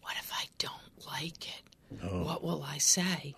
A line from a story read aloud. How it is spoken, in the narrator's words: he said to Quinn in a whisper